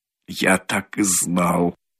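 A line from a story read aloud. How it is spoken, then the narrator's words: Embarrassed mutter. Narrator (Russian): бормотал он в смущении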